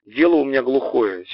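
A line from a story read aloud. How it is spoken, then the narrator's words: Plain. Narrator (Russian): часто говорит Костя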